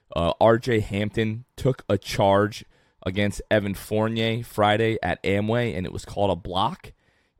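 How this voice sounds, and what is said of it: Strained, worn-out voice. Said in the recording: “my voice is trashed ... my voice is still recovering from that”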